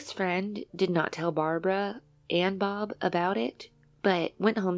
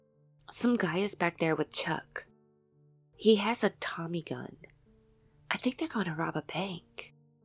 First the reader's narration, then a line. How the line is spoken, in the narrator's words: In a low whisper, Caril told her friend